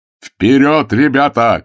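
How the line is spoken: Shout. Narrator (Russian): крикнул опомнившийся Прокунин

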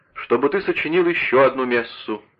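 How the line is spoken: Proud exclamation, father. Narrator (Russian): с гордостью воскликнул папа

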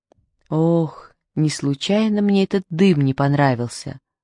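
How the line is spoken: Sighing. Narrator (Russian): вздохнул микроб

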